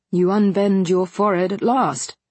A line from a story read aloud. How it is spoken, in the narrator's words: said Mr